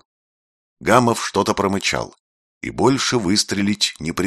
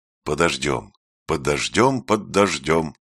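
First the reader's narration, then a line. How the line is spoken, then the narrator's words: Repetitive muttering. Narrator (Russian): бормотал он, и опять начинал по кругу повторять одно и то же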